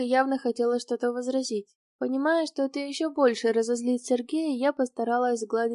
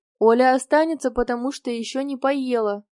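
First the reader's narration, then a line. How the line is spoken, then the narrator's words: Stern. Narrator (Russian): строго ответил за меня мужчина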